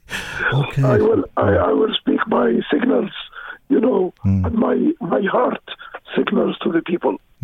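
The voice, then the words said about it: Voice weakened by flu. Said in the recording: “my voice has not helped me well because it was infected by flu”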